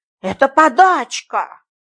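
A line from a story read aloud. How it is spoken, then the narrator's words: Angry. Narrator (Russian): сердито сказал краевед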